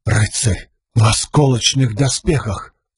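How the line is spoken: Breathed out. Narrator (Russian): выдохнул Кен

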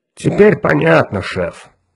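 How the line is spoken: Low booming voice. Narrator (Russian): прогудел Грег

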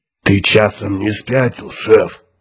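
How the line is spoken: Hoarse question. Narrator (Russian): хрипло поинтересовался Тикар

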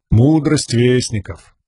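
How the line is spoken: Absent-minded, rote tone. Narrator (Russian): рассеянным тоном сказал Лирин, повторяя урок, который давал уже неоднократно

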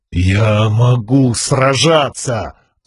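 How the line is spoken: Growled through pain. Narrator (Russian): прорычал парень сквозь боль

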